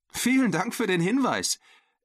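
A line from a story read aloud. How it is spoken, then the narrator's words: Laughing reply. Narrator (German): erwiderte Sarah lachend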